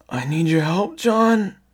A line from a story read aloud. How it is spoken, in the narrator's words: the raspy voice cried